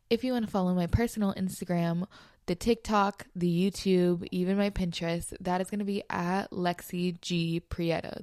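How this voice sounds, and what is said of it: Slightly sick, congested voice. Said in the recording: “I don't know if you guys can hear in my voice, but I think I am getting a little sick... if I sound sick or, you know, congested”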